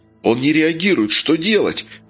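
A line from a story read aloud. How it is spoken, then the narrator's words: Exclamation. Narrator (Russian): воскликнул Вася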